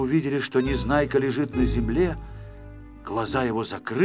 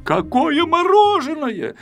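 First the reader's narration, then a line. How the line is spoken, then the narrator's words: Shouting. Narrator (Russian): закричал Пилюлькин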